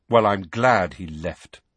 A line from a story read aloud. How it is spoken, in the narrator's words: Harry said coldly